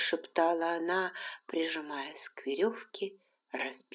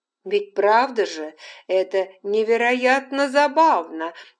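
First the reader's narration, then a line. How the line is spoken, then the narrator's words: Exclamation. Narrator (Russian): воскликнула Нан Сатклифф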